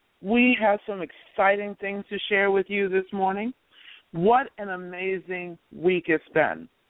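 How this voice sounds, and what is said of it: Rough, unwell-sounding voice. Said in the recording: “excuse my voice today because I have a bit of a cold.”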